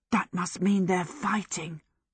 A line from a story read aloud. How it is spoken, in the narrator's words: Michael whispered